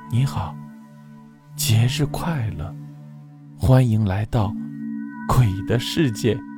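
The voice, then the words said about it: Cold, icy voice. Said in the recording (Chinese): “他仍然用一种冰冷的声音说道”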